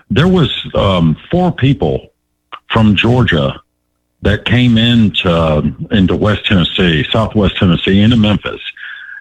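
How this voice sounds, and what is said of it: Tennessee Southern accent. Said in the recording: “He's got the accent.”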